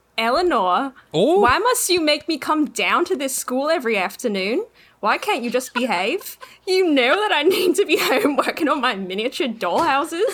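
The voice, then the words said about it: Put-on Australian accent. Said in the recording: “Australian accent”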